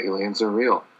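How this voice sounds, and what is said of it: Whispered, NPR-style delivery. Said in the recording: “NPR is aliens are real. That's how you have to whisper”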